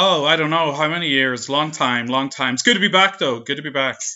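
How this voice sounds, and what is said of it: Usual voice. Nothing is said of it.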